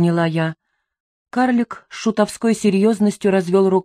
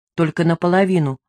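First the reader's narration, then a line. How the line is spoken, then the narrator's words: Plain. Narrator (Russian): ответил Джокер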